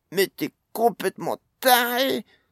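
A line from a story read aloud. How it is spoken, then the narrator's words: Exclaiming. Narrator (French): s'écria Pod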